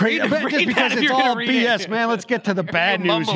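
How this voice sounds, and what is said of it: Usual voice. Nothing is said of it.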